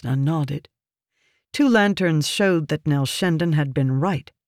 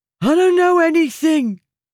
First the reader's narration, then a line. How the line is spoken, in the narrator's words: the man exclaimed